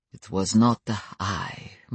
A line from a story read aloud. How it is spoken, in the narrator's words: murmured Stefan